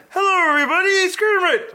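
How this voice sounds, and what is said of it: Kermit the Frog cartoon voice. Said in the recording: “you should hear his Kermit. Go ahead, do your Kermit.”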